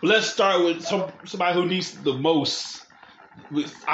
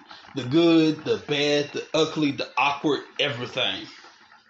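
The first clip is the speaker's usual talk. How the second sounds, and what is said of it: Poor imitation of another person's voice. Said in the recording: “Were you going for a Dusty Rhodes impersonation there? ... horrible Dusty Rhodes there.”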